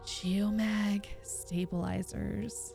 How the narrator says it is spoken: closed his eyes tightly and whispered

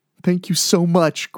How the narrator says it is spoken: Greg said between sobs

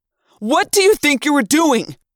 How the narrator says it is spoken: He yelled

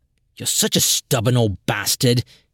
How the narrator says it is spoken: Yime muttered

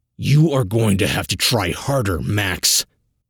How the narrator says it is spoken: the agent hisses

